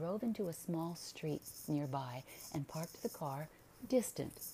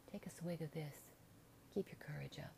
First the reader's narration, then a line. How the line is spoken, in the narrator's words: tenderly urged